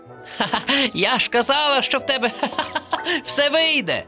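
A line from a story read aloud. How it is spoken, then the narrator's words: Laughing turtle. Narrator (Ukrainian): засміялася черепашка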